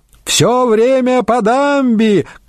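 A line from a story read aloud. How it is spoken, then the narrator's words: Shout. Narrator (Russian): крикнул Вассерполик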